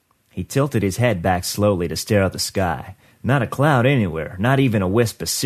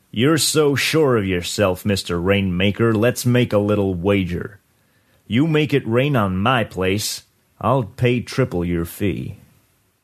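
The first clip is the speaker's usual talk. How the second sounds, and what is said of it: Hard voice. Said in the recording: “said in a hard voice”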